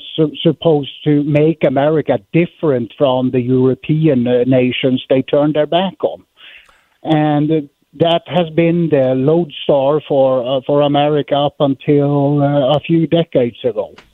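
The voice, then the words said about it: Swedish-accented English. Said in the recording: “as you can hear on my accent, ... I'm from Sweden, actually.”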